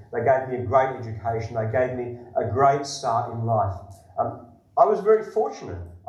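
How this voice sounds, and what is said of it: Australian accent. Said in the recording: “as you can probably tell by my accent, I'm an Australian.”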